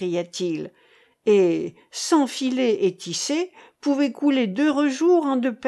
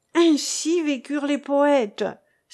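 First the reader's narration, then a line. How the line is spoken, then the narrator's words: Exclaimed. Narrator (French): s'écria Wilhelm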